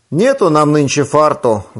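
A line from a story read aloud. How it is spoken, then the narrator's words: Old man grumbling. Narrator (Russian): ворчал Васюткин дедушка Афанасий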